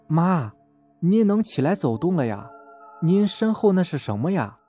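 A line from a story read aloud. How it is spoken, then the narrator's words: Soft question. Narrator (Chinese): 大儿子轻声问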